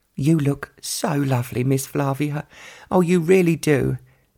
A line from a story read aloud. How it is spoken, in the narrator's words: Betsy sighed